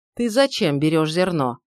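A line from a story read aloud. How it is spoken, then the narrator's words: Gloomy sharp retort. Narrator (Russian): мрачно вскинулся Шмидт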